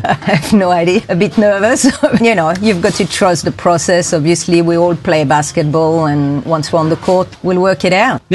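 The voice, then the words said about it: European (Swiss) accent. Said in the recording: “you've got a European accent there ... From Switzerland.”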